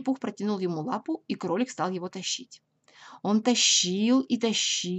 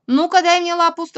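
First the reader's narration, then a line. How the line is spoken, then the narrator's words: Stern rabbit. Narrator (Russian): строго сказал кролик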